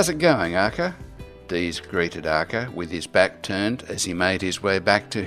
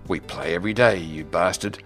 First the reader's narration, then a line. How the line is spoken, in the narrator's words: Dees scoffed playfully